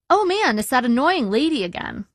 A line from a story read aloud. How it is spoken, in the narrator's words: I said brightly, trying to diffuse the situation